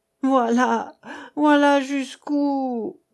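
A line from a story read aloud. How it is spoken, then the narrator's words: Stammering. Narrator (French): balbutiait-il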